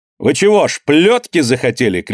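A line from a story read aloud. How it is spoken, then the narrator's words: Shout. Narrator (Russian): крикнул Данила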